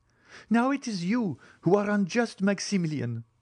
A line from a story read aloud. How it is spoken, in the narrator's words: cried Valentine